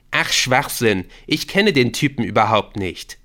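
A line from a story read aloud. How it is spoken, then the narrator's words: Calling. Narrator (German): rief Victor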